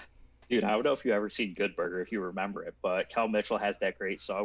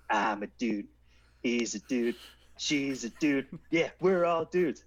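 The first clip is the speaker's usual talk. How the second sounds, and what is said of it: Poor imitation of another person's voice. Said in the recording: “very poor Kel Mitchell impersonation”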